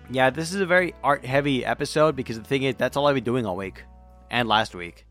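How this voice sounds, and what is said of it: Sore, throaty sick voice. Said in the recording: “It's all in my throat now. Which sucks, because I need my throat to talk on this damn podcast... if my voice sounds different, that is not your ears... It's just my voice.”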